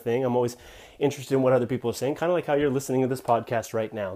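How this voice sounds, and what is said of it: Slightly out of breath. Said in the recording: “if I sound a little bit out of breath,... I was doing some sprints.”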